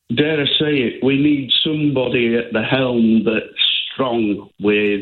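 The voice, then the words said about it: Yorkshire English accent. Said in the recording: “I'm from Yorkshire, you can probably tell with my accent... I didn't think you were Welsh... I didn't think you sounded like you were from the Valleys”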